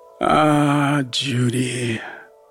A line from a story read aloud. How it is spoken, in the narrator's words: he muttered